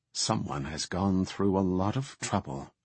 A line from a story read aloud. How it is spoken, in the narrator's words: Su'ura muttered